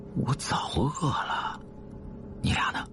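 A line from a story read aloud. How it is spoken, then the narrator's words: Quiet. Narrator (Chinese): 吕川又小声说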